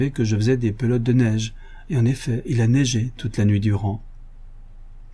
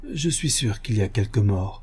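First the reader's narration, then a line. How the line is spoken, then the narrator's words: Anxious murmur. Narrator (French): murmura Thérèse, qui ne put se défendre d'une émotion d'anxiété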